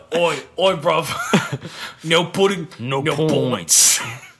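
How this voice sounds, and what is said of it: Bad gritty put-on British accent. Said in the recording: “This is the worst accent. This is such a bad accent. I can't even handle it. ... my British accent ... that's not my actual British accent. It's my gritty, you know, keeper British accent ... Peaky Blinders”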